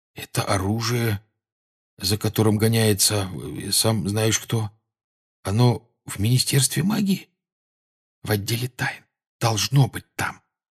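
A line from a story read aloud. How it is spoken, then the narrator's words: Whispered answer. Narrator (Russian): шепотом ответил Гарри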